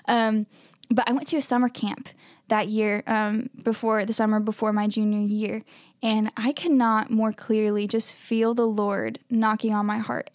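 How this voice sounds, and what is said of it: Southern US accent, Kentucky/Alabama. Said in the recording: “my good old Kentucky, Alabama accent”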